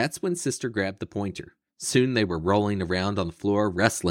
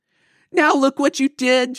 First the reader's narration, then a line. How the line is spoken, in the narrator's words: shouted Lizzie